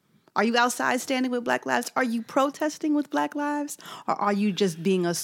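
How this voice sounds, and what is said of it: Usual voice. Nothing is said of it.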